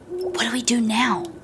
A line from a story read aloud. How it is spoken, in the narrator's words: whispered HEEPIE